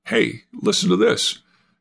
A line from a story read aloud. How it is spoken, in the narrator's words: Mark cried out